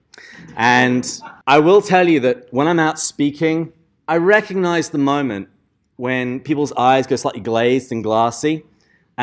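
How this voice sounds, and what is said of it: English accent. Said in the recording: “As you can hear from my accent, I was born in England, which is why I sound this great.”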